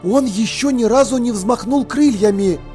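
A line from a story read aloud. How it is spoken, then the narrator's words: Exclamation. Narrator (Russian): воскликнул Маркоу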